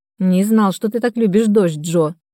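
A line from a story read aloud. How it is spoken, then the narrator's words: Amused snort. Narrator (Russian): хмыкнул ангел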